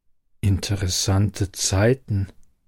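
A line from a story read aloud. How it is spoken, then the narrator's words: Murmured. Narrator (German): murmelte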